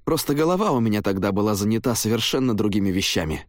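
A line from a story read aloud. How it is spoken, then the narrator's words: Casual defensive tone. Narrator (Russian): попытался оправдаться я достаточно, на мой взгляд, беззаботным тоном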